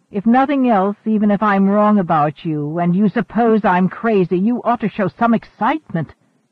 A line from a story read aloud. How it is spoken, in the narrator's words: MacReady snapped